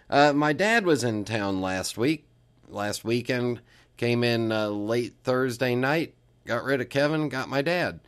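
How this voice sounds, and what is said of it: Groggy, froggy voice from a cold. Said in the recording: “I sound a little groggy, a little froggy, it's because of that ... I caught the cold early”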